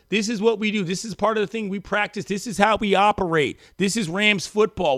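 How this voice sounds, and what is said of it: Assertive Sean McVay impression. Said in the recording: “pretty good McVay impression ... It's a cadence thing. It's not a voice thing. ... he talks like that, he's so assertive on everything”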